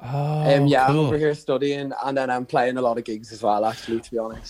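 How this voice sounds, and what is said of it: Irish Donegal accent. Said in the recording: “Love the accent so much. ... that's not a Liverpool accent, is it? ... No, it's Donegal. Donegal.”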